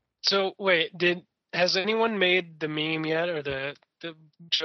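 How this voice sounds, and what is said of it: Usual voice. Nothing is said of it.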